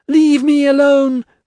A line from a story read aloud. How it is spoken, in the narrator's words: she screeched